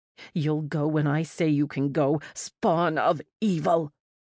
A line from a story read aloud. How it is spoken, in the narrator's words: Words spat at me as she struggled against my grip